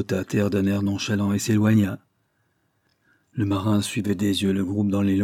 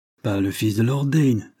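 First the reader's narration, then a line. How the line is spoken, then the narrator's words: Embarrassed exclamation. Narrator (French): s'écria l'autre, assez embarrassé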